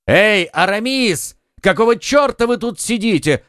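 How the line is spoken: Two friends shouting. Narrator (Russian): крикнули оба друга

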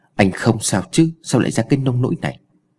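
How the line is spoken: Gentle question. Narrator (Vietnamese): nhẹ nhàng hỏi

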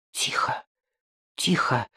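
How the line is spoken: Whispering. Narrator (Russian): прошептал Кирсанов

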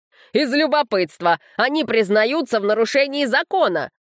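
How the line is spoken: Shout. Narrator (Russian): снова закричал представитель дома Меккери, отец Руфиала

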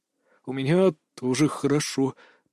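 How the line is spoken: Embarrassed mumble. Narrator (Russian): промямлил Кирилл, краснея, как помидор

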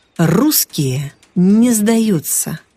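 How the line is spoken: Deep bass voice. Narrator (Russian): пробасил Володя

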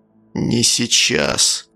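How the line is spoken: Deathly flat voice. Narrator (Russian): произнес отчим мертвенным голосом

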